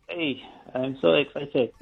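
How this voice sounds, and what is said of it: Sad, unexcited tone. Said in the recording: “You sound sad to me. Come on. I want to hear the excitement.”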